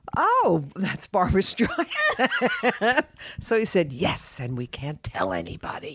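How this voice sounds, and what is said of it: Imitates another person's voice. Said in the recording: “That's a good Greg Smith impression.”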